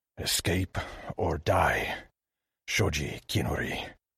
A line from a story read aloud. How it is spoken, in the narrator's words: He shook himself and growled